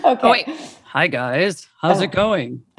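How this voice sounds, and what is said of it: Smooth radio announcer voice. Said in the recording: “That's a radio voice right there.”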